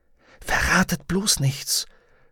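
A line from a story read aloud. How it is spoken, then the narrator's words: Whispering. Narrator (German): flüsterte sie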